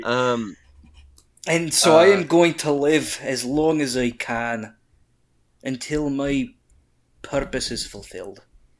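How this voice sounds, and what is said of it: Character voice with an accent. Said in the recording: “I love Thorne's accent.”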